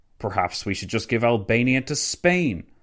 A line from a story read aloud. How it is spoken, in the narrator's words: Orlando scoffed, evidently having reached the end of his patience